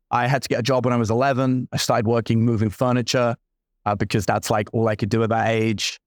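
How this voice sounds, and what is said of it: London accent. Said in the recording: “I grew up in London ... I heard the accent. I just didn't know exactly from where.”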